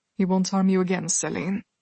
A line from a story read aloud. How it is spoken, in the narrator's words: he said, his tone even, his words soft